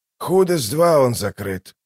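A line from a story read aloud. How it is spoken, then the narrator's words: Hoarse. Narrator (Russian): прохрипел Дуджик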